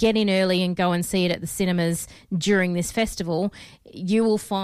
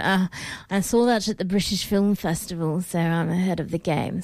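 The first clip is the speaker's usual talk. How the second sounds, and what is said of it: Snooty put-on accent. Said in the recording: “Do you um, have to say it like that? ... you're not snooty if you don't have that accent.”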